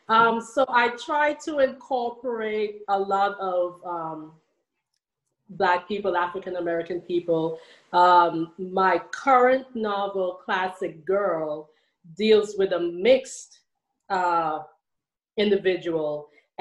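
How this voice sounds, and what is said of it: Trinidadian Caribbean accent. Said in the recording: “I hear that lovely accent. You haven't lost it.”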